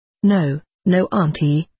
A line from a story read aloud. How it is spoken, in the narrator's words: faltered